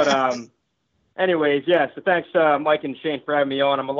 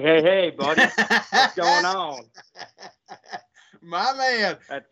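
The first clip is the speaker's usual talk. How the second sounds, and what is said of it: Imitates another person's voice. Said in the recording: “my cousin Shane impression”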